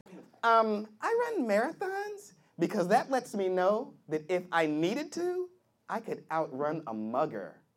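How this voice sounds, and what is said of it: Mock stereotyped white girl voice. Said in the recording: “that's my white girl impersonation.”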